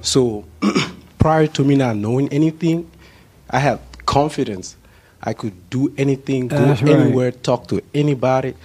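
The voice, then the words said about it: Nervous, shaky voice. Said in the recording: “you can hear it in my voice... are you nervous now?... Yeah, I'm nervous.”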